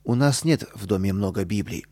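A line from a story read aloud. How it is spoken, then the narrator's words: Calm mother. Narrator (Russian): спокойно ответила мама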